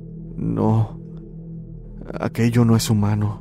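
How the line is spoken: Trembling voice. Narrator (Spanish): solo pude responder con voz temblorosa

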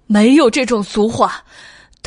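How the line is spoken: Roaring. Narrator (Chinese): 袁耀吼道

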